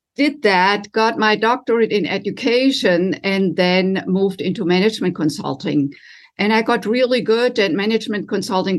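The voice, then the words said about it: German accent. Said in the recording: “you can tell probably in the audience as well from my accent that I didn't grow up in this country. I was raised in Germany”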